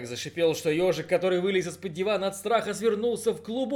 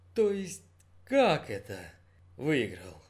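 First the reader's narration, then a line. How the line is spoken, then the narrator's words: Quiet question, father. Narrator (Russian): тихо спросил папа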